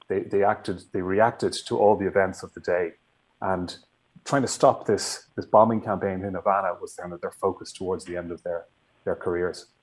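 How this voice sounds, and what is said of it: Irish accent. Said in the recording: “Your lovely accent tells me you are from where? ... Ireland.”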